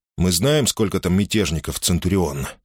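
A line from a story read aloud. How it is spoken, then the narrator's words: Plain. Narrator (Russian): спросил Юлий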